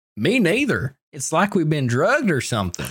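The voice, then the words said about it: Put-on redneck accent. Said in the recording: “I had an accent oh, change. ... he said me neither, and I thought he deserved a redneck accent.”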